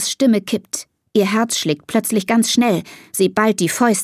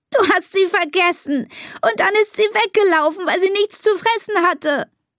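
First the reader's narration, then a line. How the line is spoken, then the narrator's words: Sobbing. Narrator (German): schluchzt Elisa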